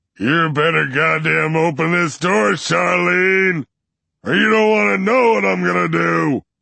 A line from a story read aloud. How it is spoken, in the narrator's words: He stops pounding his fist against the door to yell